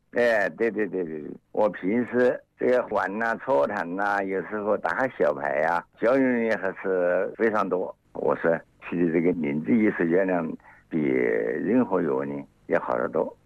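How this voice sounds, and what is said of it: Regional Chinese accent. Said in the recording (Chinese): “听你的口音你是哪里人呢”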